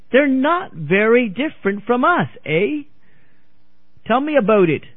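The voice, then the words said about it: Poor put-on Canadian accent. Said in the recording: “I give a lousy Canadian accent”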